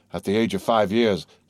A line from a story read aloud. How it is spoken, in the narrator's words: said the Major with a deep sigh